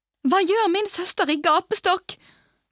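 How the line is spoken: Screamed. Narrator (Norwegian): skrek Celia

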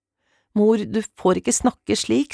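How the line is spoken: Tearful, choked voice. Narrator (Norwegian): sa Camilla gråtkvalt

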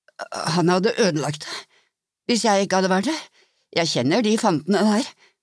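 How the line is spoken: Frightened young stammer. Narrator (Norwegian): stammet unggutten som var drivende hvit i ansiktet

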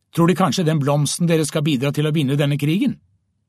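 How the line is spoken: Barked harshly. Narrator (Norwegian): Den ene SS-mannen bjeffet

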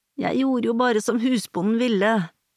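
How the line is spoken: Wailed. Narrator (Norwegian): jamret kona

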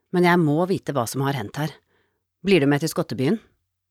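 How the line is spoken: Sighed. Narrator (Norwegian): sukket hun

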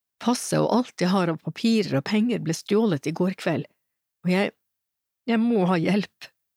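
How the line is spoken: Crying. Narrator (Norwegian): gråt hun

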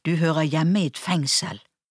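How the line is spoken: Hissing. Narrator (Norwegian): hveste hun

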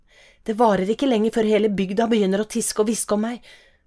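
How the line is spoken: Half-choked voice. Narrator (Norwegian): sa hun med halvkvalt stemme

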